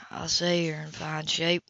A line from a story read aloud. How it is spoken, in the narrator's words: he murmured dryly